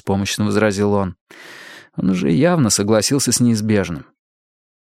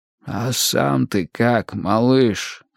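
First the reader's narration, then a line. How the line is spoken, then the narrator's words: Hoarse question. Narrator (Russian): хрипло спросил Булин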